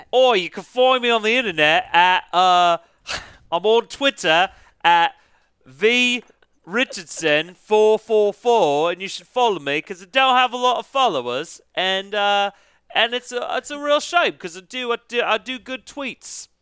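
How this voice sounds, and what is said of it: Australian accent, then Russell Brand impression. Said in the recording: “You started with an Australian accent for the first sentence ... and then you turned into Russell Brand.”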